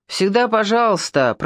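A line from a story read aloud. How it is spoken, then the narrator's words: Grumble. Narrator (Russian): проворчал Паша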